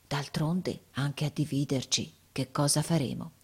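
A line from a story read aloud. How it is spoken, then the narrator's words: Quiet. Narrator (Italian): lui disse piano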